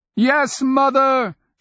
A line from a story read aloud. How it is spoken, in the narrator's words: she shouted to the air, the way Meppa might